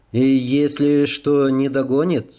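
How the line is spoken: Plain question. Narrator (Russian): спросил Рей

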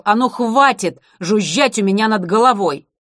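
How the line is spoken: Fed-up shouting. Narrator (Russian): Юстасу так это надоело закричал

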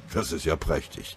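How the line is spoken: Murmured. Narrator (German): murmelte Linsenmeier

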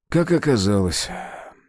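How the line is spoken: Answered with a sigh. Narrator (Russian): ответил он, вздохнув

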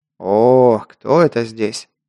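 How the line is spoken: Deep bass voice. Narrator (Russian): пробасил гном

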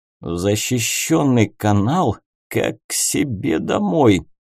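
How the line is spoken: Old man's admiring grumble. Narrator (Russian): восхищенно проворчал старый капитан

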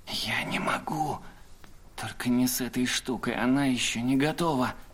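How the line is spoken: Whispered reply. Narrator (Russian): шепотом ответил Сойер

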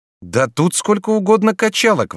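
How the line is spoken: Exclaimed. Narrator (Russian): воскликнул

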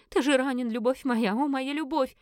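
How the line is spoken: Moaning, sobbing. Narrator (Russian): простонала фаворитка, зарыдав

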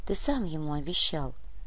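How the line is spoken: Soft. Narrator (Russian): мягко произнесла Вера

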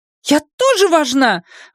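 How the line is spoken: Shrill squeal. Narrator (Russian): взвизгнула она

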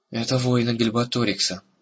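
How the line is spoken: Weary. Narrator (Russian): устало промолвил Эрагон

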